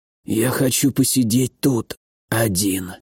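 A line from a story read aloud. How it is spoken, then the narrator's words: Hoarse, unfamiliar voice. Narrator (Russian): хриплым незнакомым голосом сказал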